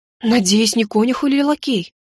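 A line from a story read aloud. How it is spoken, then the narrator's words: Horrified gasp. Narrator (Russian): в ужасе выдохнула я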